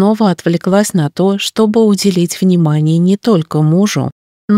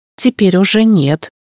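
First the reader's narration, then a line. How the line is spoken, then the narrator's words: Wry snort. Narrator (Russian): хмыкнул Марк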